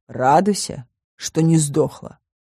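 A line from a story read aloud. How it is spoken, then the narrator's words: Grumbled reply. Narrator (Russian): проворчал в ответ Коул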